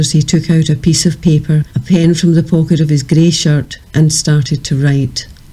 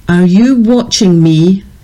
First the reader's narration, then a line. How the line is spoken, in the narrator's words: He roared